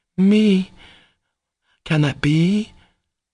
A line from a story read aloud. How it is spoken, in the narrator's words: she faltered, turning pale